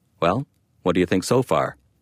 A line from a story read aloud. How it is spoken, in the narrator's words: In a deadpan tone, asked